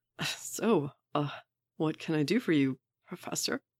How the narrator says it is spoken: Wade says, trying to ignore the way his voice cracks over the word Professor

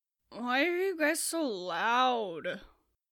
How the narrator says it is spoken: Nursey groaned, waking up

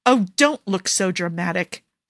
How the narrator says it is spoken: Jafar snaps

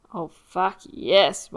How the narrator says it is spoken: Mike groans

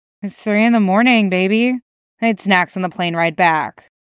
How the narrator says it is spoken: Dick chuckled quietly as he replied

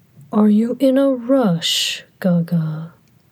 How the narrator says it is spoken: Hua Cheng murmured

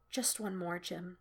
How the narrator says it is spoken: she murmurs, her throat tight

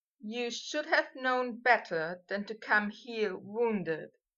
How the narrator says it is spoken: he said

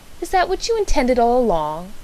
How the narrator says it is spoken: I exclaimed indignantly

